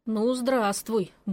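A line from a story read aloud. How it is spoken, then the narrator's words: Grumbled. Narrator (Russian): буркнула я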